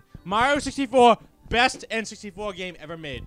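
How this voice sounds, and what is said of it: Shouting. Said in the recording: “I'm shouting. ... I'm shouting.”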